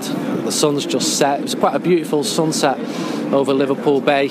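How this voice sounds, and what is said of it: Manchester accent. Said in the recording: “my Manchester accent”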